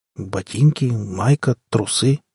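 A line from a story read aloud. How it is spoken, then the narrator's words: Bewildered. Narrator (Russian): сказал я растерянно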